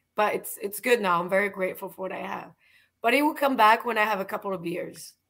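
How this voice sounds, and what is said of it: Raspy, strained voice. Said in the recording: “it's still pretty raspy”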